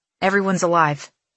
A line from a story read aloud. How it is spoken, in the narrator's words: Killorn offers quickly